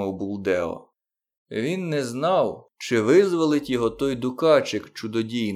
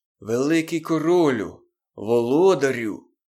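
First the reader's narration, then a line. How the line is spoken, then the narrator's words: Hoarse voice. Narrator (Ukrainian): сказав стрілець хрипким голосом, думаючи, що Моглі змилосердиться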